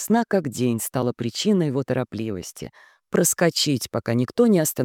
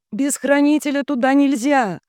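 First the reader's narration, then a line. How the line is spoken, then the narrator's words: Shouting. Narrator (Russian): закричала Лиса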